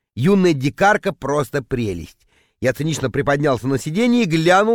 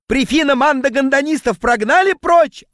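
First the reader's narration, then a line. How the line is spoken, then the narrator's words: Yelling. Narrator (Russian): орал он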